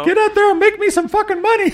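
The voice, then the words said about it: Cartoon Mickey Mouse character voice. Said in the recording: “That was more like Mickey, wasn't it? ... That's Mickey. ... Yeah, that is Mickey. ... South Park Mickey”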